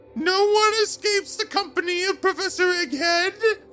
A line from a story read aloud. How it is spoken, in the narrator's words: screamed, and then laughed as if he said a joke